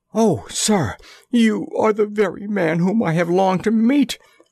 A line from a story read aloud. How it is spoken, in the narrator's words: cried the little fellow